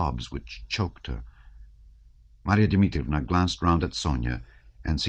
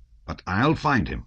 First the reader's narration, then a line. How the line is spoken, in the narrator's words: she said in her rough voice